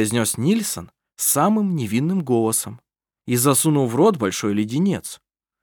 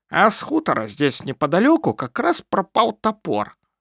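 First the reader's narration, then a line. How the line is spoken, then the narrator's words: Lisping voice. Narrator (Russian): прошепелявил он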